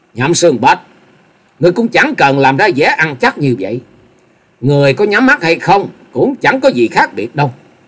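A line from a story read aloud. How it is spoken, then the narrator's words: Loud mocking laugh. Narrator (Vietnamese): Dịch Hương Trúc cười lớn, giọng đầy mỉa mai nói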